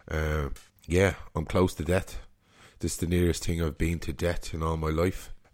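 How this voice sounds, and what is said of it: Voice sounding sick with flu. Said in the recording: “You can hear by my voice, I have the man flu”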